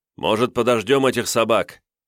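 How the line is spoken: Laughing man's voice. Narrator (Russian): хохотнул рыжебородый воин

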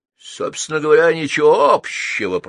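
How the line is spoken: Growl. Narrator (Russian): прорычал Бархатный Чарли

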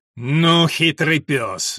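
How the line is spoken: Angry. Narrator (Russian): зло сказал Уильям

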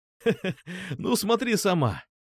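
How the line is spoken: Laughing. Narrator (Russian): Засмеялся я

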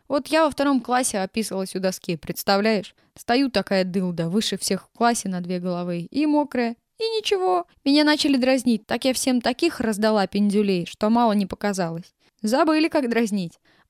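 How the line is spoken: Laughing loudly. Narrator (Russian): она расхохоталась

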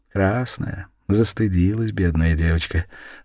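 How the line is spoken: Moved, tender voice. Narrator (Russian): растроганным голосом произнес Светилович

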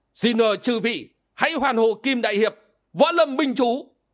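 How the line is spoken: Loud voice. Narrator (Vietnamese): Siêu Đức Thiền Sư lớn tiếng

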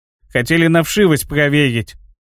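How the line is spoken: Grumbling. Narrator (Russian): проворчал коротышка Изи

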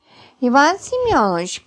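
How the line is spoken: Squeaky voice. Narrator (Russian): пропищала Галочка

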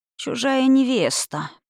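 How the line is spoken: Drawling. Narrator (Russian): протянула Роу

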